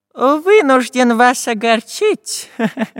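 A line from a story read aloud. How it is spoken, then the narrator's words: Laughing. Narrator (Russian): Засмеялся профессор Пыхтелкин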